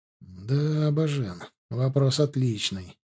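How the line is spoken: Quiet. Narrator (Russian): тихонько произнес Арт

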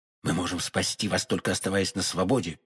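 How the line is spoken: Quick whisper. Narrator (Russian): быстро шепнул ему Д'Артаньян

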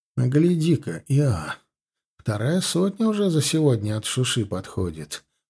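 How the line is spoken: Muttering. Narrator (Russian): пробормотал Гончаров

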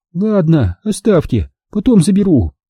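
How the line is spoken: Condescending. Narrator (Russian): Снизошла она, словно речь шла о пятерке

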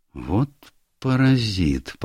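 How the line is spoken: Muttered. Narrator (Russian): пробормотал он

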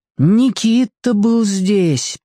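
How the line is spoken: Tragic, repeated. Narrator (Russian): повторяла Алька трагическим голосом

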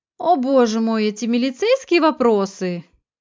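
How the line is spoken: Sudden exclamation. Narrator (Russian): вдруг воскликнула Виолетта

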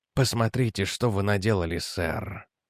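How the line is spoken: Quiet. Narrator (Russian): тихо сказал Реджи

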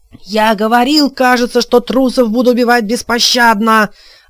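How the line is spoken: Frenzied spitting yell. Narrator (Russian): вопил он, брызгая слюной

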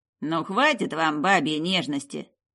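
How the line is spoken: Grumbled. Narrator (Russian): проворчал Поджук

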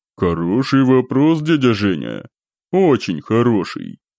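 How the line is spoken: Low bass voice. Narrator (Russian): промолвил в ответ черногвардейцев, низким басовитым голосом объявил

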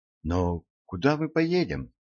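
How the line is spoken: Plain. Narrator (Russian): спросила Айрис

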